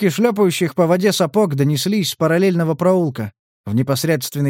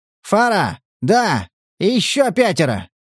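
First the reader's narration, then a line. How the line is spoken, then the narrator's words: Yelling over radio. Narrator (Russian): орал кто-то, видимо, по рации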